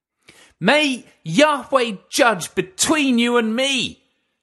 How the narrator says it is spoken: she screamed at him

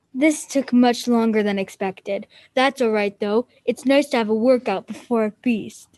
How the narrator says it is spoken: the dragon had been silent, but now it said in a deep voice

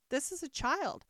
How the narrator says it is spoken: Hare replied eagerly

